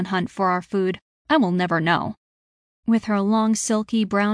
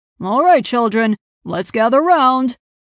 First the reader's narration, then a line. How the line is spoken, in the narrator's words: Sir Piers barked